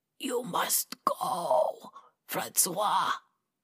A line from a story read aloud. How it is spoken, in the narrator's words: Martel rasped